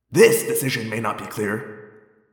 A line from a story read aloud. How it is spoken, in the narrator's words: Tobias said quietly